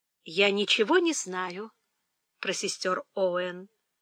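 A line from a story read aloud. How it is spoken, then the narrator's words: Calm. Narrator (Russian): спокойно сказала Фанни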